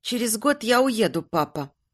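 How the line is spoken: Soft voice. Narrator (Russian): негромко произнесла она

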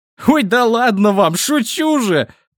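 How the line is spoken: Laughing. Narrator (Russian): рассмеялся

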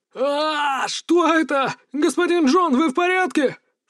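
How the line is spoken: Panicked shouting, crowd. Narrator (Russian): в панике кричали собравшиеся вокруг него подчиненные

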